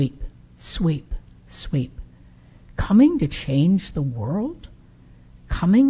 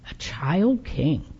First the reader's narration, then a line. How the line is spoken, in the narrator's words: muttered Bafana